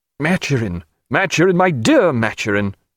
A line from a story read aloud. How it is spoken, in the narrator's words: cried Sir Joseph